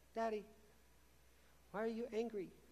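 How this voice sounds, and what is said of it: Little squeaky child's voice. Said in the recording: “this little squeaky voice”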